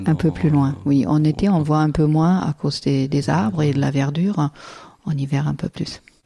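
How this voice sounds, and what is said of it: French with a German accent. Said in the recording (French): “un charmant accent allemand”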